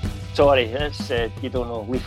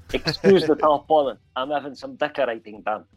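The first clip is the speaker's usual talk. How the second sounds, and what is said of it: Put-on South African accent. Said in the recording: “Lethal Weapon 2, safe African accent”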